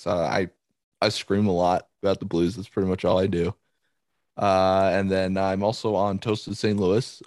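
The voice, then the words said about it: Nasal, congested voice. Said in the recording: “I actually woke up 2 days ago with a little bit of a cold, so I'm still a little under the weather here. So that's probably why my voice is so nasally”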